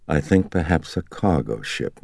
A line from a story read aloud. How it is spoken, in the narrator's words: Marin murmured as he stared off absently